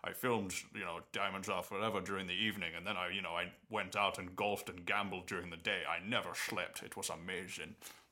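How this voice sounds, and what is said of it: Imitates another person's voice. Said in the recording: “it's not a very good impression, but ... no, it wasn't a very good impression. I lost it halfway through”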